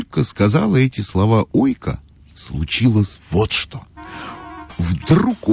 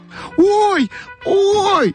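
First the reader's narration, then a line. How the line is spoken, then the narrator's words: Shout. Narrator (Russian): закричала Ойка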